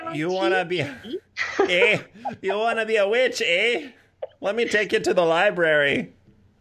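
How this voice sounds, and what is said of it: Put-on sing-song Canadian accent. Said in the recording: “Do you like my Canadian accent? Was that an accurate Canadian accent? ... everyone I know from Winnipeg sounds just like that ... It's like the Winnipeg, Minnesota. Mm. That cute little like sing song.”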